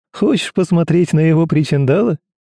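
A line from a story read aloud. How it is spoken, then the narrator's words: Laughing. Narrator (Russian): рассмеялся Рома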